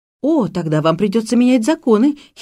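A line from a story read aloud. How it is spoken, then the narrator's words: Giggling. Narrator (Russian): хихикаю я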